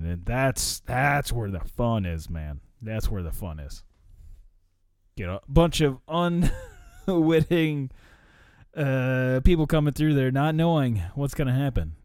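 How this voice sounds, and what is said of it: Rough, strained voice. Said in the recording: “I can't talk. My voice is still a little rough because, I mean, I was screaming a lot.”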